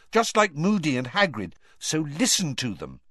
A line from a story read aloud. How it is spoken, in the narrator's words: said Hermione sharply